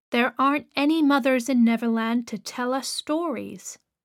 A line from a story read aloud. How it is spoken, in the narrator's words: said Peter sadly